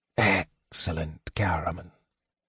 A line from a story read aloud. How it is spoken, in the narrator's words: Raistlin whispered when he could not speak